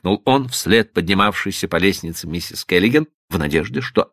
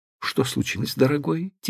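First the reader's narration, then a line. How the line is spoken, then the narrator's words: Quiet question. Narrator (Russian): тихо спросила она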